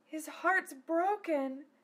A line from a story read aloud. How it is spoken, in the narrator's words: Sylphiel sighed to Zelos